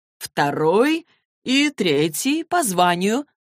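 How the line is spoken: Slow. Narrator (Russian): медленно проговорил Люк

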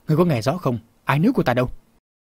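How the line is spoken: Shouting again. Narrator (Vietnamese): Phong Bảo Chủ lại quát

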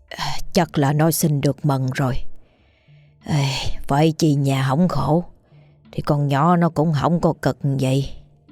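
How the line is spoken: Old woman muttering. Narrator (Vietnamese): bà … lẩm bẩm trong miệng

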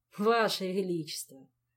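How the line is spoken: Laughing. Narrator (Russian): засмеялся Жак

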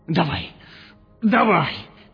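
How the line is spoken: Hoarse writhing wheeze. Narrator (Russian): прохрипел Гусак, корчась

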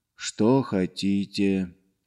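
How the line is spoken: Barely audible whisper. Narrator (Russian): еле слышно прошептал

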